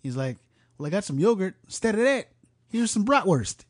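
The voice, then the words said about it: Put-on Chicago accent. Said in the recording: “I just wanted to do a Chicago accent.”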